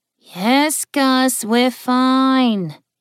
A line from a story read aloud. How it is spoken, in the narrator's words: his mother said in an almost bored tone